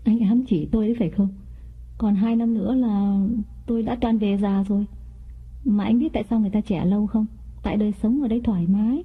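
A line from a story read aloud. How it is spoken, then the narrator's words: Smiling. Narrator (Vietnamese): Mỹ mỉm cười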